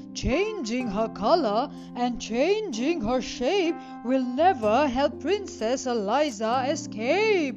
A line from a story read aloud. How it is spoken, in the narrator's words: The wizard just laughed his horrible laugh and said